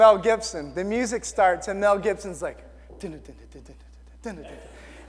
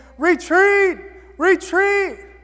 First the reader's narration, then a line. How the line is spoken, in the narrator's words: they're yelling these words, they're saying